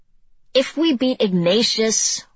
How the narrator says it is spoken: one of them shouted

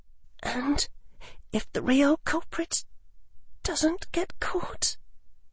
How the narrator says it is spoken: She said in a trembling voice

